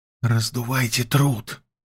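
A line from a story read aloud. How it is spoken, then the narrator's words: Whispered request. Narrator (Russian): попросил Лёшка шепотом дядьку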